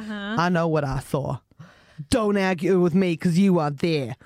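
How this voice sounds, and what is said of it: Put-on Boston American accent. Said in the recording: “Which accent is that? ... Boston.”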